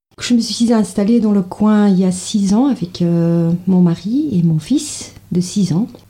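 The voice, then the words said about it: Slight Flemish Belgian accent in French. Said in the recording (French): “je suis d'origine belge flamande, donc là, le français c'est pas ma langue maternelle. Vous allez bien entendre, vous allez découvrir un petit accent.”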